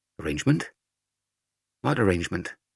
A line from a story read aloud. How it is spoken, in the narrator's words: Mother asked